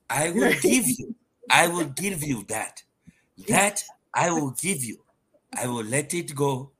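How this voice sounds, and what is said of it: Put-on African accent. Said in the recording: “In my African accent,”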